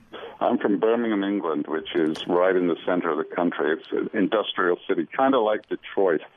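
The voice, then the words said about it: English accent. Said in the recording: “you obviously have an English accent.”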